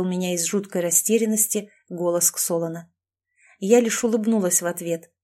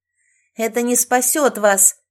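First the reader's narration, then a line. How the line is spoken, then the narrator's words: Defiant shout. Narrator (Russian): с вызовом выкрикнула Шерри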